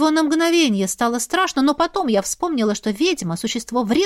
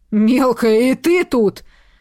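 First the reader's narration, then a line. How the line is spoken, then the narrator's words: Young man growling. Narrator (Russian): зарычал юноша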